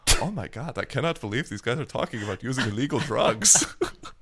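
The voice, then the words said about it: Put-on Dutch accent, Z-heavy. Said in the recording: “Your Dutch accent. It's just like adding a Z to every word.”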